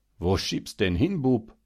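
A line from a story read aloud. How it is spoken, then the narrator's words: Laughing loudly. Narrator (German): lachte laut und sagte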